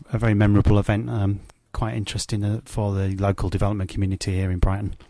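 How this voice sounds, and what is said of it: Yorkshire accent. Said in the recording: “That doesn't sound like a Brighton accent to me a very Yorkshire accent”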